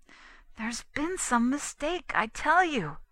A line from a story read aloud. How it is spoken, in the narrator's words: pleaded Lancaster